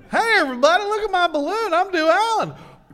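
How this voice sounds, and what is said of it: Impression of Dolan. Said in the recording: “his Dolan impression”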